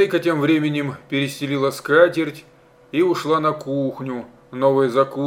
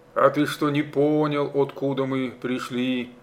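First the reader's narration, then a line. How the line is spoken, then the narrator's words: Sad smiling voice. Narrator (Russian): грустно улыбнулся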